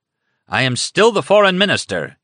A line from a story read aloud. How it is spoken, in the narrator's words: shouted